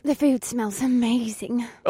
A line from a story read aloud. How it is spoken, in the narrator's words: Alyssa breathed by my side